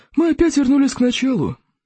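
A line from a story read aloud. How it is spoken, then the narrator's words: Sigh. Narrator (Russian): вздохнул Зеленый Смерч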